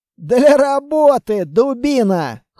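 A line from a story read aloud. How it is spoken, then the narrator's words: Short laugh. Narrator (Russian): хохотнул Строгов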